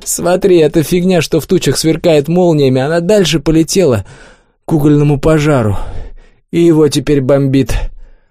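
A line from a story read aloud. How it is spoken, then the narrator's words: Nervous laugh, hoarse statement. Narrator (Russian): Клёпа вдруг нервно хохотнул и хрипло заявил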